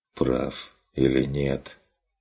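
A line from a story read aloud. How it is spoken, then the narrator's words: Tired reply. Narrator (Russian): Устало откликнулся Стрик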